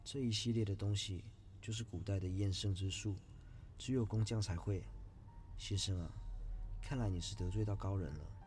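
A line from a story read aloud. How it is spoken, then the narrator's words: Old man sighing. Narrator (Chinese): 老头叹了口气说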